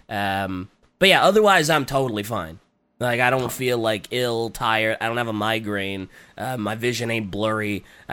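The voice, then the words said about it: Raspy, slightly congested voice. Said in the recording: “my voice is still a little raspy ... throat's still a little raspy ... a little raspy, a little congested”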